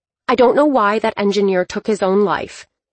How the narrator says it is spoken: Dylan snapped

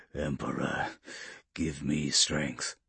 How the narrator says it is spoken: Polixis murmured to himself, struggling once more against his unresponsive armor

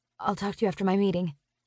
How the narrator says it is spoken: I mumble

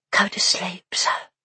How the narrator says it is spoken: she whispered

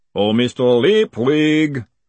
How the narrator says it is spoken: the voice boomed out across the stable yard

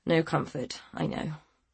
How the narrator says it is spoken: he mumbled apologetically

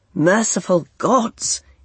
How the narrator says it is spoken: he exclaimed

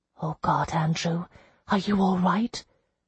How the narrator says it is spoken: I whispered

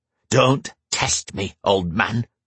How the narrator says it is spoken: Wulfric growled

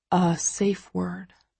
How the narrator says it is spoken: he says softly

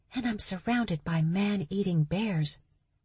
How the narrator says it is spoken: she whispered

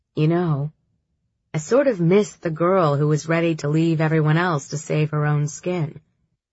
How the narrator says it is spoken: Jin said

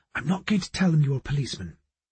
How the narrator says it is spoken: She whispered to me

